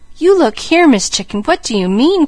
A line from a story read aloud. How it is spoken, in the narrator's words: cried Mickey wonderingly